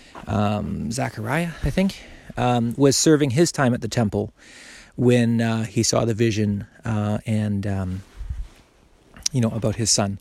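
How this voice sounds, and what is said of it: Slightly out of breath. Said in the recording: “I'm a little bit out of breath. I'm holding my son here.”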